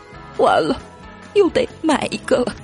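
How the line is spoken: Glum, whining. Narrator (Chinese): 夏天哭丧着说

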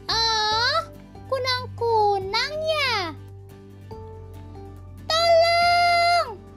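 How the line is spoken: Monkey shouting. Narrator (Indonesian): teriak monyet siang

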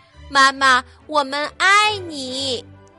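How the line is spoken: Loud. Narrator (Chinese): 大声说

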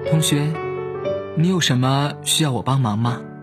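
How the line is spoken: Very gentle. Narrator (Chinese): 温柔至极

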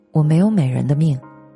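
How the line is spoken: Sighing. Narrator (Chinese): 他感叹

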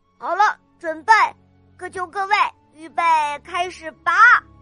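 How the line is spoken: Loud shout. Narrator (Chinese): 他大声的叫道

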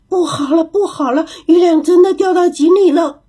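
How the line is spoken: Panicked chattering cries. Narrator (Chinese): 猴子们叽叽喳喳的叫着，闹着，惊慌极了

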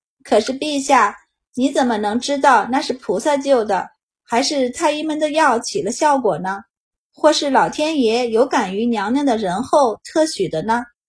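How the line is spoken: Plain. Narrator (Chinese): 他道

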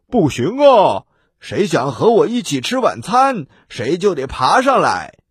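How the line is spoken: Loud shout downward. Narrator (Chinese): 他往下大声的喊

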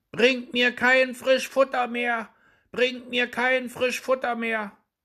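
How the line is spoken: Calling out again. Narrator (German): rief Daumestick aufs Neue

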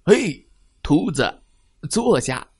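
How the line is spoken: Big man shouting. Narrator (Chinese): 坐在他们身后的一个大块头男人喊道

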